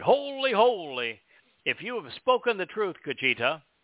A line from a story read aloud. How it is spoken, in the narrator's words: Walker cried